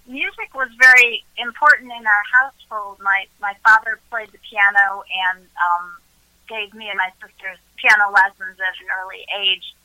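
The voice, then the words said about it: Chicago accent. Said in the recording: “I'm from Chicago. You can probably tell by the accent.”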